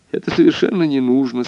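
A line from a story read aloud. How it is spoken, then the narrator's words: Child's sighing request. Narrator (Russian): сказала чадо, вздохнула и попросила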